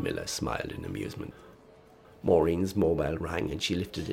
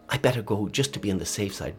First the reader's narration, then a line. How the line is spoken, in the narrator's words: blurted Maureen